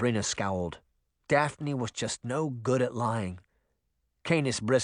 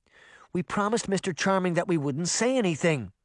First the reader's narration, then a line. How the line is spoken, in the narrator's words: Daphne blurted out